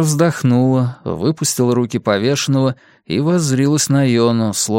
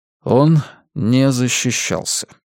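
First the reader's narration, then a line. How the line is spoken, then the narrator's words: Calm repetition. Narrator (Russian): спокойно повторил Йона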